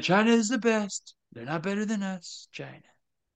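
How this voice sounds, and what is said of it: Donald Trump impression. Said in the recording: “Your Donnie is really good, dude.”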